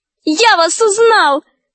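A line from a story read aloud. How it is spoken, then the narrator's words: Shout. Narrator (Russian): закричал он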